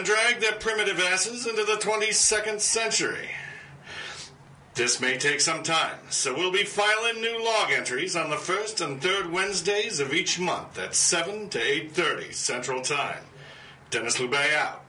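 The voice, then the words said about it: Futurama-style spaceship captain, Jersey-ish accent. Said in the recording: “I like how your starship captain is. What is that, a Bronx? That's not Bronx. It's, what is that? Jersey. ... A Jersey accent? ... it's based on the guy out of... Out of Futurama. ... The spaceship captain.”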